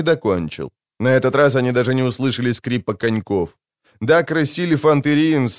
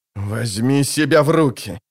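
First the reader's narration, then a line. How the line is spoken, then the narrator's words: Growled. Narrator (Russian): зарычал он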